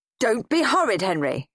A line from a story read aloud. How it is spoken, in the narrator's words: snapped Dad